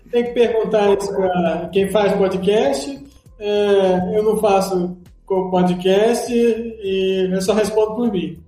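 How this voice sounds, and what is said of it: Imitates another person's voice. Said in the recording (Portuguese): “Essa foi sua imitação do Monark?”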